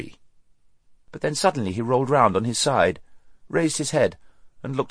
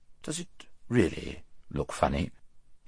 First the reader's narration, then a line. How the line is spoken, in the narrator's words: he asked in an anxious voice